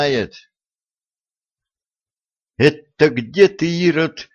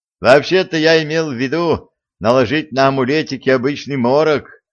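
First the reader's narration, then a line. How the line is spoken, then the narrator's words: Distant laughing gossip. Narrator (Russian): хохотал уже из сеней царский сплетник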